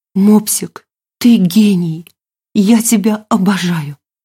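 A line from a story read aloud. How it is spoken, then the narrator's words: Sad reply. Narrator (Russian): Грустно ответила Милена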